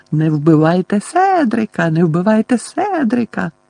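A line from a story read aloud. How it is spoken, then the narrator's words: Shrill mocking squeak. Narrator (Ukrainian): Дадлі реготнув, а тоді пропищав пронизливим голосом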